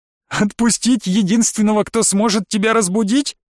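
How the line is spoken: Witch laughing. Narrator (Russian): Ведьма засмеялась

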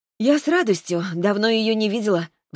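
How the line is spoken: Sighing. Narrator (Russian): вздохнула я

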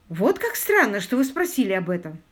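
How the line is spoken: Young woman exclaiming. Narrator (Russian): воскликнула молодая женщина

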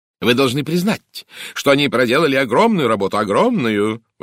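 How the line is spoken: Exclaimed. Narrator (Russian): воскликнула леди Уэстхолм

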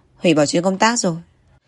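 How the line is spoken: Cold. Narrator (Vietnamese): Giang Liễm lạnh lùng nói

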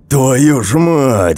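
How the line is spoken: Roaring sergeant. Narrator (Russian): взревел сержант

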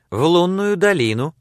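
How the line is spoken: Cheerful reply. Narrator (Russian): весело отвечала Сексон

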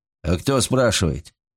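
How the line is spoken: Curt, sharp retort. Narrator (Russian): резко бросил мужчина

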